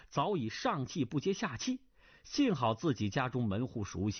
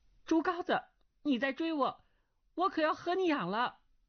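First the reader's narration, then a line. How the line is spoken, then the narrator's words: Shouting. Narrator (Chinese): 钟灵叫道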